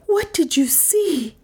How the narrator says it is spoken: gasped Dale

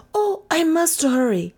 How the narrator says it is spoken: Detra cried

